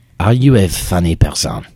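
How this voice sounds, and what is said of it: Deliberately bad French accent. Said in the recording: “in a very French accent ... that's a terrible, terrible French accent”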